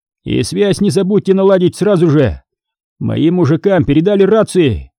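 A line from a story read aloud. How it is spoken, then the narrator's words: Shout after someone leaving. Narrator (Russian): крикнул вдогонку уходящему мужчине лейтенант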